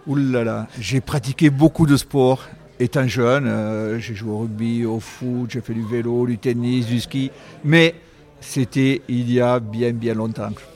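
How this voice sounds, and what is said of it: Regional French accent. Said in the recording (French): “avec votre accent, je peux supposer que vous avez un sport de prédilection, non avec un ballon ovale”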